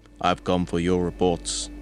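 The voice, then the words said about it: Put-on Austrian accent. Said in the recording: “says in an Austrian accent”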